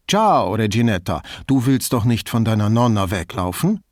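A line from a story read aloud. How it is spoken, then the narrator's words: Loud, in Venetian dialect. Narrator (German): sagte er auf Veneziano und laut genug, dass die Frau es hören konnte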